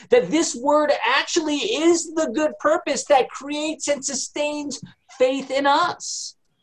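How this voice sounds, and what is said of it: Loud, yelling preaching voice. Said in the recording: “I'm yelling... I always do that... Dad, just talk. You don't have to yell.”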